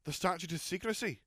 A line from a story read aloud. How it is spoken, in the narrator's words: he exclaimed